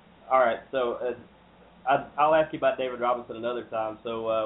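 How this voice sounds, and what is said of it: Usual voice. Nothing is said of it.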